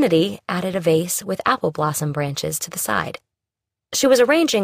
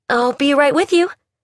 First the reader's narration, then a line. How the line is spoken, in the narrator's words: she said brightly